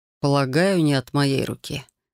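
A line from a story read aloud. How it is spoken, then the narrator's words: Gloomy. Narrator (Russian): мрачно сообщил Рион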